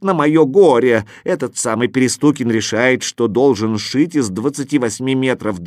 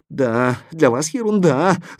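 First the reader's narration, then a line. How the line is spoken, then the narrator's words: Tailor's whimper. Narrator (Russian): захныкал портной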